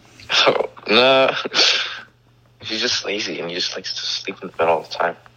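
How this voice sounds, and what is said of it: Tired, sleepy-sounding voice. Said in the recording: “he sounds tired ... I'm so tired ... my voice is so”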